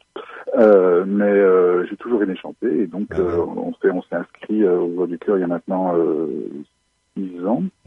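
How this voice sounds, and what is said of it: French-from-France accent. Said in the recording (French): “Je viens initialement de France, comme mon accent l'indique”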